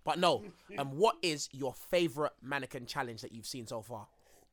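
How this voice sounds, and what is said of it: Deliberately deep voice. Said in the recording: “my voice is very distracting, especially when I go into a deep tone like this”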